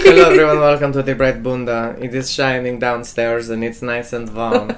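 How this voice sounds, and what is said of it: Attempted Brazilian accent sounding German. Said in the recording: “I love that my Brazilian guy is German. ... It's not quite how the accent goes.”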